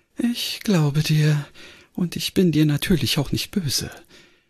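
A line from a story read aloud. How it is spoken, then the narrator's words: Sighing over loudspeaker. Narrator (German): Ein tiefer Seufzer drang aus dem Lautsprecher und dann sagte sie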